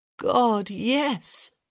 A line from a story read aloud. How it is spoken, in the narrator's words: she groaned